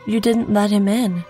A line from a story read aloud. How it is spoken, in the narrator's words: said sadly